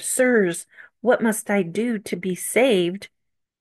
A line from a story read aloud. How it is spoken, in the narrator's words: the Philippian jailer in Acts 16 fell at the apostles' feet and cried